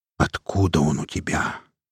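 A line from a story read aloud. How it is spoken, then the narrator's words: Quiet question. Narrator (Russian): тихо спросил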